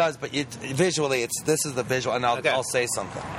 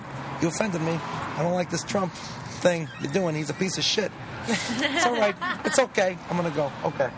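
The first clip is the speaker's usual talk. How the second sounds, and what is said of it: Imitates another person's voice. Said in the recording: “good De Niro impression ... that's really good”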